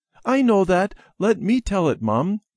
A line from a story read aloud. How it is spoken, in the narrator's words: Debbie said eagerly